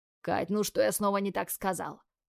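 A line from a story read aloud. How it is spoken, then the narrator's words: Heavy sigh. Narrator (Russian): Тяжело вздохнул Тим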